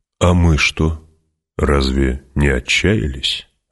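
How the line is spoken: Plain. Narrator (Russian): спросил Стилгар

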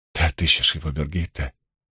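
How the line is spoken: Very quiet speech. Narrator (Russian): Она говорила очень тихо

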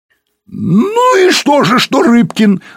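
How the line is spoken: Shouting. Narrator (Russian): закричал Пучко

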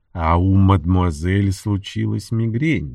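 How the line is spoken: Disappointed tone, aloud. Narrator (Russian): добавил он вслух разочарованным тоном

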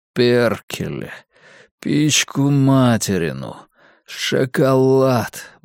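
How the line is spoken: Muttering. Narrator (Russian): бормочу я

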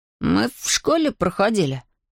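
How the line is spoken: Mumbled. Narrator (Russian): промямлил Эйден

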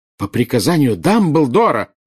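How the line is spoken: Indignant woman. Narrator (Russian): возмущенно начала было Белатриса

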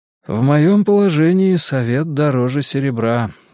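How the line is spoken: Sigh. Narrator (Russian): вздохнул я

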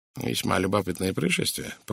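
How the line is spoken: Mutter. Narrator (Russian): пробормотал Пуаро

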